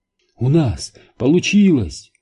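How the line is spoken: Exclaimed. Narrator (Russian): воскликнула Нелл

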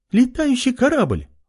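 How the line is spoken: Exclaiming. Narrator (Russian): воскликнула она

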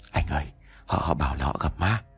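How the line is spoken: Whispered in ear. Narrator (Vietnamese): Linh lúc này mới từ từ tiến lại thì thầm vào tai của anh

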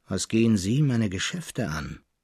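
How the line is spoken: Old man, dry, rough. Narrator (German): erwiderte der Alte ziemlich trocken und rau

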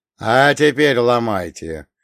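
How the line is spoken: Snorting. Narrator (Russian): хмыкнул я

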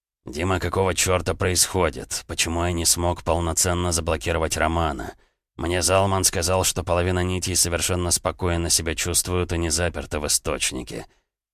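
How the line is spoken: Barely audible question. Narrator (Russian): Рокотов очень тихо на грани слышимости спросил

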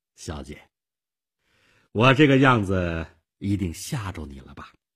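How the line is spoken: Forced smile. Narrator (Chinese): 妮可勉强地笑笑

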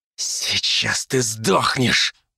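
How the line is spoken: Hissed threat. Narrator (Russian): прошипел Вяземский

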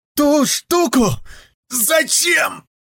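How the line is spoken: Hoarse rasp. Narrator (Russian): прохрипела она

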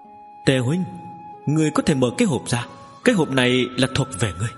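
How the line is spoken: Trembling, laughing. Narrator (Vietnamese): run rẩy ném ra cho Tề Kiều Nghi, cười nói

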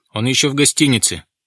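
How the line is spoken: Shouting officer. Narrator (Russian): крикнул кто-то из офицеров

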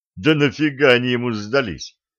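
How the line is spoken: Snorted. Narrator (Russian): фыркнул Балдео

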